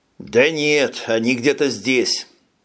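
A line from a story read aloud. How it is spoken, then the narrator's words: Dry reply. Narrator (Russian): сухо ответил Джим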